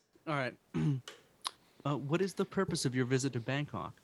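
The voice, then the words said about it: Imitates a movie customs agent's voice. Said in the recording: “you can do that do that impression ... the ticket agent ... Customs agent.”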